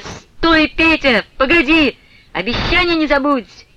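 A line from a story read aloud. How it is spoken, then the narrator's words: Loud laughing shout. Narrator (Russian): громким смеющимся голосом Фленушка ему крикнула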